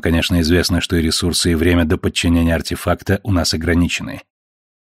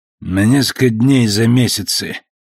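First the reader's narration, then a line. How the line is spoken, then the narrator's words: Muttered to himself. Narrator (Russian): буркнул Советер себе и экрану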